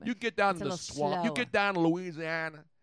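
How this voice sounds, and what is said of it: Put-on Cajun accent. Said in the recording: “Now, you're not doing it right. You have to do the slow southern drawl. ... No, I'm doing Cajun first.”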